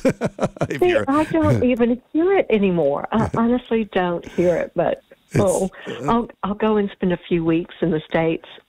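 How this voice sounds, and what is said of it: Southern American accent with twang. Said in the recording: “your southern accent reminds me of the Golden Girls... it's just got that gorgeous twang”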